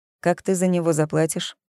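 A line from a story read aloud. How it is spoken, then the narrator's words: Scoffing. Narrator (Russian): Зои хмыкнула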